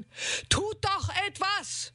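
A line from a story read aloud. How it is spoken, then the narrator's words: Man bellowing. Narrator (German): brüllte ein Mann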